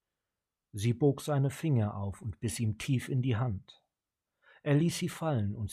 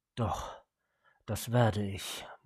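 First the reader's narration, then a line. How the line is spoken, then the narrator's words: Murmured. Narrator (German): murmelte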